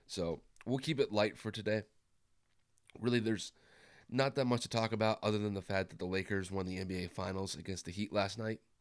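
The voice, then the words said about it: Hoarse, worn-out sick voice. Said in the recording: “I've been dealing with the flu the last couple days, and you guys could probably already tell that my voice is already shot”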